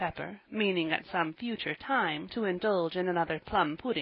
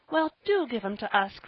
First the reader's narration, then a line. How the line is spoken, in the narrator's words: cried Polly